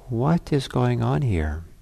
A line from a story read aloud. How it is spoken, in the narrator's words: the lion says to them calmly